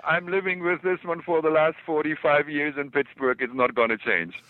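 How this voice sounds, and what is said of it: Strong German accent. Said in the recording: “I speak with a terrible German accent.”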